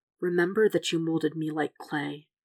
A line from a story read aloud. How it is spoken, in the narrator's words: he says softly